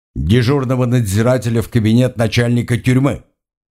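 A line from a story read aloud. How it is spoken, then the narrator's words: Stern command. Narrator (Russian): строго приказал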